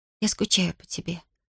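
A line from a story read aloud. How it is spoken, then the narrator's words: Whisper. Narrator (Russian): прошептала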